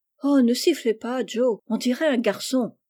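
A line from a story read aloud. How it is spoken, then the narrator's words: Exclamation. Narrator (French): s'écria Amy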